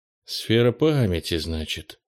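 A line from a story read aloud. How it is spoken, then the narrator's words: Mumbled. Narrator (Russian): пробормотал Кенни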